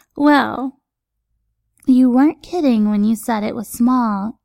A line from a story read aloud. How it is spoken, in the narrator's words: a familiar voice chuckles